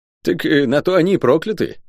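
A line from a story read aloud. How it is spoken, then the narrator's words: Scoffing grunt. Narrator (Russian): хмыкнул Леопард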